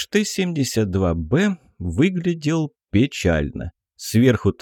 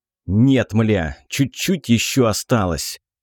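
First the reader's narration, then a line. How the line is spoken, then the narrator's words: Irritated snapping. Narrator (Russian): огрызнулся кокос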